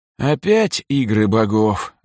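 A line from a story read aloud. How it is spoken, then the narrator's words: Resigned sigh. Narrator (Russian): обреченно вздохнул Сергей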